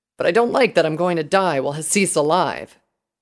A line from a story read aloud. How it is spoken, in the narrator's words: he growled